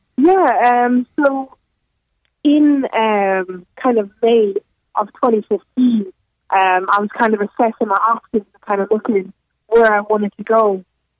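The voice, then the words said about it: Slight non-American accent. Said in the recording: “our listeners can detect a little bit of an accent in your voice”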